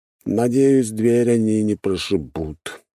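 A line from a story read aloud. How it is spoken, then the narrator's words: Grumbling. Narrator (Russian): пробурчал Эмир Михайлович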